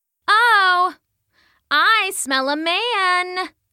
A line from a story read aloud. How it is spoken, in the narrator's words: she called out, almost playful